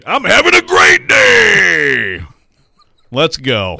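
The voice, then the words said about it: Imitates another person's voice. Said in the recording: “in the words of Jeff Rudnick ... that impersonation”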